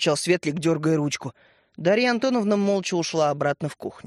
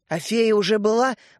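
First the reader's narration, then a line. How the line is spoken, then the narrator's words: Excited question. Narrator (Russian): взволнованно спросил Светлик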